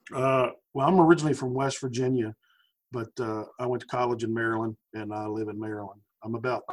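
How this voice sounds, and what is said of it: Southern American drawl. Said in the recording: “I can hear your southern drawl”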